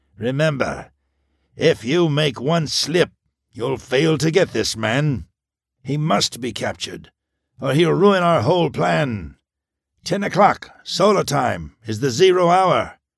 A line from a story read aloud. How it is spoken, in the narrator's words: rasped the Wrecker